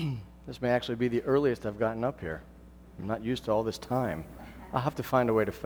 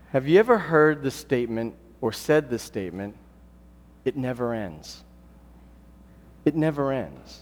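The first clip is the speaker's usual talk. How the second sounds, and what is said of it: Weary, frustrated tone. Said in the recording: “Probably by my tone of voice, you have an idea that whatever it is, that it's not good.”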